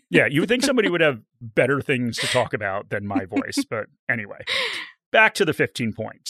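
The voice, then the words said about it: American accent. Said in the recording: “I've had my voice described as annoying and a horrible American accent”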